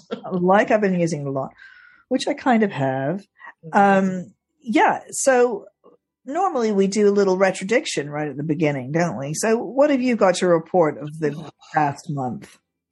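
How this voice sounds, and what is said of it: Slightly gravelly, hoarse voice. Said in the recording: “You're sounding better than last month, but not completely ... my voice is still a little bit weird, a little bit gravelly ... my voice is sounding lived in ... like you've been using it a lot”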